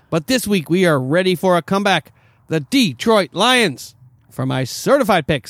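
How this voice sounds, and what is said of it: Yelling loudly. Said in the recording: “Why are you yelling at me?”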